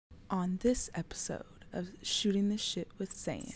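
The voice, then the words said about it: Sultry, seductive voice. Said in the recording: “sexy voice ... make her talk like that”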